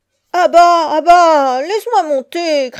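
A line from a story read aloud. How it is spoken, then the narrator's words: Shouting. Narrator (French): criait Abdullah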